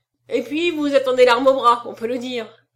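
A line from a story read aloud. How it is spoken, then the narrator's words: Sneering retort. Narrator (French): riposta Trois Pattes en ricanant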